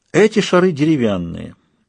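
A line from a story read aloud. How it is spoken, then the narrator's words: Calm tone. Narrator (Russian): спокойным тоном сказал Людзе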